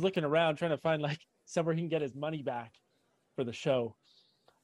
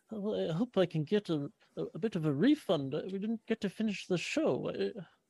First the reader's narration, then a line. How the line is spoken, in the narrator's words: mumbling to himself